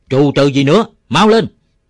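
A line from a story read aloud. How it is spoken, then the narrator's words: Roared. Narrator (Vietnamese): Nó gầm lên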